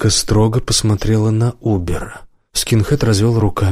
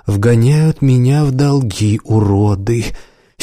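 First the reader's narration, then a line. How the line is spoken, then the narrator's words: Whining, moaning. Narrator (Russian): Синий законючил, застонал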